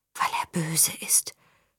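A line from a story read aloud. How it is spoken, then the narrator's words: Childlike inner whisper. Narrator (German): flüsterte es in Marias kindlichem Verstand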